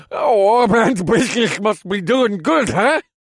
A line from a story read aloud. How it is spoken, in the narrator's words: laughed, but his eyes were still round with shock